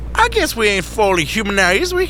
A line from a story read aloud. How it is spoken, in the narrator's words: Neck chuckled